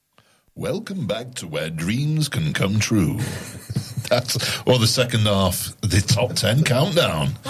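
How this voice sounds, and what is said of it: Put-on radio announcer voice. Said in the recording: “What happened to your voice? ... That was my radio voice. The voice for radio.”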